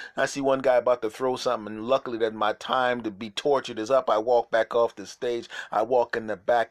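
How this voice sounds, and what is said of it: Usual voice. Nothing is said of it.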